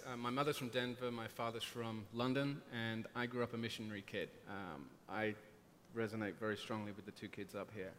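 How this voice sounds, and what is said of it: Speaks with a noticeable accent. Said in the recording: “I'm sorry about the accent. I can't do anything about it.”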